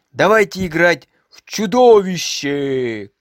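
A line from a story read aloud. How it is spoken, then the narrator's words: Shout. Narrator (Russian): крикнул Томми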